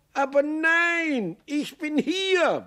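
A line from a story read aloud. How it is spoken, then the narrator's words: Bellowed in sudden recognition. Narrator (German): brüllte Maxl, denn mit einem Male merkte er, dass er in seiner früheren Wohnung war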